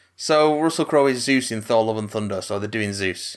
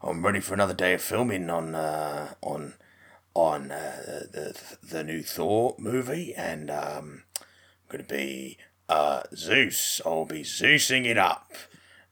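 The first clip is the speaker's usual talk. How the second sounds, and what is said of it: Imitates another person's voice. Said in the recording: “I'm going to do my Russell Crowe voice”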